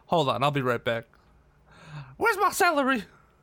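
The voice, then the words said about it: Madea character voice impression. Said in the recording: “my best Madea impersonation. ... You really nailed it. ... you thought Madea popped in on this podcast”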